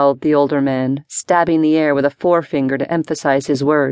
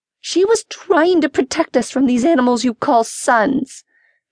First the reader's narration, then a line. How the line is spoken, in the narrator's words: shrieked the older sister